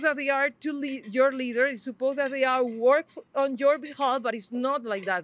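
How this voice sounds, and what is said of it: Spanish accent. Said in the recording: “your beautiful Spanish accent”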